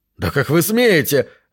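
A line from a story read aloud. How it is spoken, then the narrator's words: Shout. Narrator (Russian): выкрикнул он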